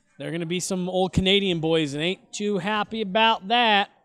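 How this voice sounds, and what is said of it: Put-on Southern accent. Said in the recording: “I don't know why I went Southern accent for that.”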